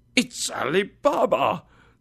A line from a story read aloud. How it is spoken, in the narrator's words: Scrooge exclaimed excitedly